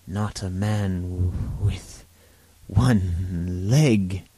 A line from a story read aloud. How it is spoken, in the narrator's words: gasped